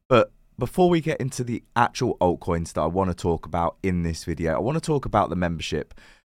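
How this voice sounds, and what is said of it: Croaky, partly lost voice. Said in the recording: “my voice is a little bit different today ... I seem to have lost my voice. I've got it back a little bit today, but I'm still very, very croaky.”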